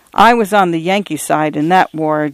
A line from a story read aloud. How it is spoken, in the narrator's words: Johnny Hannigan murmured